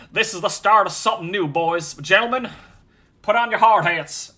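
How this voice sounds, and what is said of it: Weak attempt at Southern accent. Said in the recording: “I can't even do a Southern accent.”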